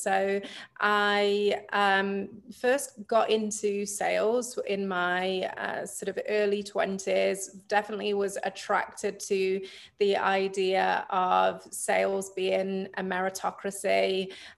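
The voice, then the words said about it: British accent. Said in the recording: “I am originally from the UK, which you can probably tell from my accent.”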